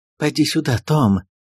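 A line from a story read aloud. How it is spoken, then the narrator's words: Trembling call. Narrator (Russian): дрожащим голосом позвала госпожа Перманедер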